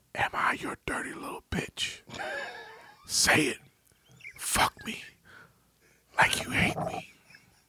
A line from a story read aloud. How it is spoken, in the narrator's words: whispered